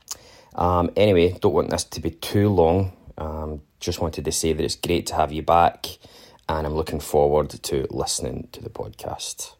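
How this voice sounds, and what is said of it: Scottish accent. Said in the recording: “in a Scottish accent”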